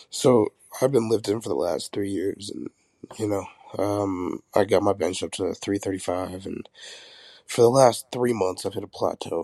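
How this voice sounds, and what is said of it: Sick, rough-sounding voice. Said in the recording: “I'm a little sick. So my voice is kind of fucked up right now.”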